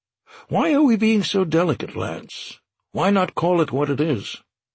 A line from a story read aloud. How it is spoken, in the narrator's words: Lance sighed